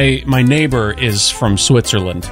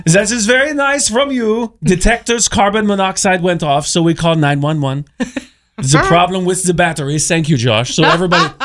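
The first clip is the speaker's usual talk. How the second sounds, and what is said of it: Good put-on French accent. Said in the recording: “I will read to you what he said in a French accent ... That was a really good accent.”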